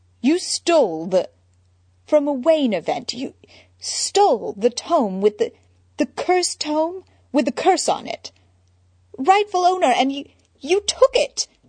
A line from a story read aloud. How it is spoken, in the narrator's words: He sputtered on incredulously, voice ping-ponging between Bruce and Batman